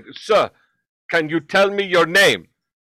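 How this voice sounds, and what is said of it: Imitated Ghanaian or Nigerian accent. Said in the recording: “I couldn't tell where the accent was from. He was either from Ghana or Nigeria. ... And I'm going to do his accent.”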